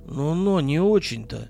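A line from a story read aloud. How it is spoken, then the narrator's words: Uncertain objection. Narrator (Russian): неуверенно возразил Владислав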